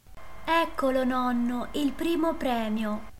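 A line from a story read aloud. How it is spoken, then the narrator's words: Exclaiming. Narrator (Italian): esclamò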